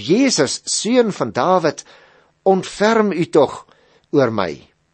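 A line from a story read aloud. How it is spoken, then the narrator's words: Crying out. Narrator (Afrikaans): het hy begin uitroep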